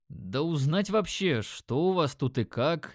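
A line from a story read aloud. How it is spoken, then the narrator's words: Uncertain. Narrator (Russian): неуверенно начал я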